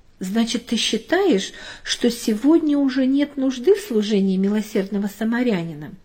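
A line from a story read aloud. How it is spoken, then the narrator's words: Plain. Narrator (Russian): спросила мама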